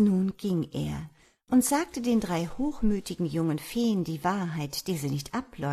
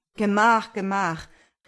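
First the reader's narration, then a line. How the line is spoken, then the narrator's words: Farmer calling out. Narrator (German): rief der Bauer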